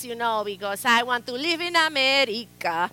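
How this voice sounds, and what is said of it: Exaggerated accent. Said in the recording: “I would have to like exaggerate the accent.”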